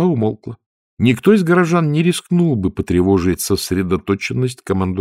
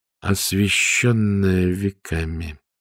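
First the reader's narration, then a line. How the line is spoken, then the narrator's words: Muttering. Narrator (Russian): пробормотала Ангва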